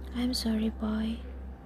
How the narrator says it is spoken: said the tree

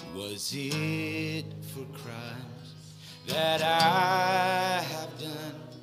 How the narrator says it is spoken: He groaned upon the tree

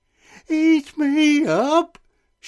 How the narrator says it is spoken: shrieked the gingerbread man

